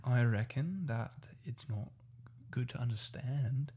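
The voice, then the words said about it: Put-on Australian accent. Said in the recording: “You should explain some part of it in Australian. ... you're good at it”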